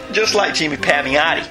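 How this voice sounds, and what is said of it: Cheesy fake New York accent. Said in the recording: “Can't do Pamiati without doing a fake New York accent ... a cheesy New York accent ... all of my accents are cheesy”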